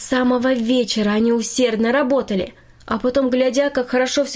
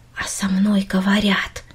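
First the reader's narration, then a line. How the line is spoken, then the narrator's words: Quiet repetition. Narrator (Russian): тихо повторила Минори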